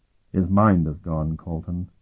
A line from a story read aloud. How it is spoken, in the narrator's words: Sparhawk said sadly